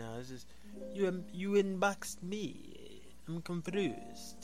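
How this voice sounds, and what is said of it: Put-on French accent. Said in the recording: “I'm going to say it in a French voice”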